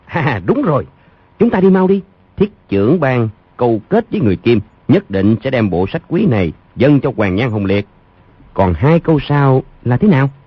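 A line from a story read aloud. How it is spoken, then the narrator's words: Laughing loudly. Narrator (Vietnamese): Bèn vỗ tay cười lớn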